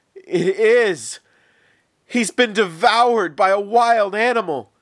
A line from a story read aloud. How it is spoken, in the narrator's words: Israel cried out